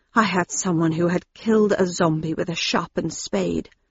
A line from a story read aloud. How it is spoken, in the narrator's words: he said quietly through his fingers